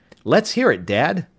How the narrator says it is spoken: Tom said eagerly

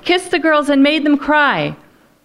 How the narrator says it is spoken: she yelled

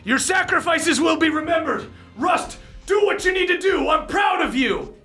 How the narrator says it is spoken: he yells to the other Bronzebeards

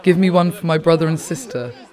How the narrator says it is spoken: little Bosniak kids who are yelling

